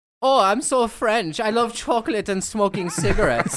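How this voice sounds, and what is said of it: Put-on French accent. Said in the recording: “your impression of a Frenchman”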